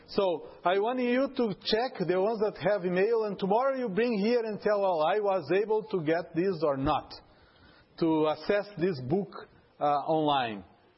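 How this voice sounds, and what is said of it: Heavy non-native English accent. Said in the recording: “my accent is terrible, and then you might not understand that”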